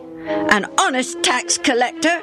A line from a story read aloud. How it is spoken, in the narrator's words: Benny flashed back just as hotly